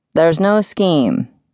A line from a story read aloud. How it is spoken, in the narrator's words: he assured them, his voice matching the resignation